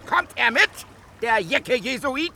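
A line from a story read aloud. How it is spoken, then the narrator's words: Shouting, laughing with delight. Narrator (German): schrie vor Vergnügen lachend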